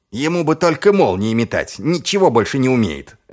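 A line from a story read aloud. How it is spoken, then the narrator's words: Snapping retort. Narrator (Russian): огрызнулся Чудакулли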